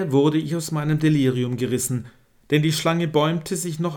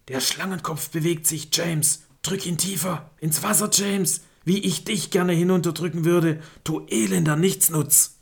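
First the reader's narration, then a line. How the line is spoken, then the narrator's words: Hissed. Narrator (German): mein Dad zischte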